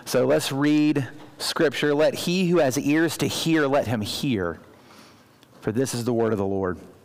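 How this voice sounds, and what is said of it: Strained voice, close to losing it. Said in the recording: “apologize for my voice... My voice does not say that right now, though... I'm hoping not to lose my voice”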